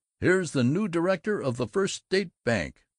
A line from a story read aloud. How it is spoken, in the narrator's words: Grover Butterbaugh, the eminent wholesaler of plumber supplies, chuckled